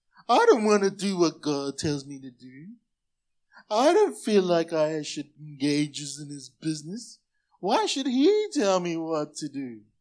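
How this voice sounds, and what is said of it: Funny unidentified put-on accent. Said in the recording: “I don't know what accent that is, but it's funny”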